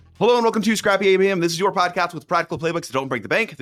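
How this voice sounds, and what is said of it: Polished radio announcer voice. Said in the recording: “I love your radio voice.”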